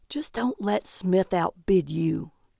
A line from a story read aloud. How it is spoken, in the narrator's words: Calvin whispered